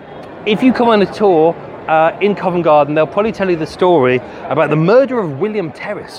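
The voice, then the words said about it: Breathless, out of breath. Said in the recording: “whoa, dear, I'm out of breath ... Whoa, I'm tired.”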